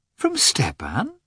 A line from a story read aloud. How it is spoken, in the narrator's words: asked Dolly in a surprised tone